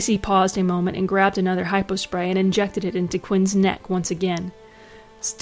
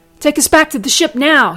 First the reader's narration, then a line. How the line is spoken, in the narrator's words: yelled